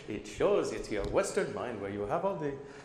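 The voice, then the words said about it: Put-on Indian accent. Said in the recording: “I'll stop doing the Indian accent.”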